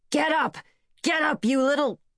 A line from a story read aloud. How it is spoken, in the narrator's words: Dimly, he heard Hatchet shouting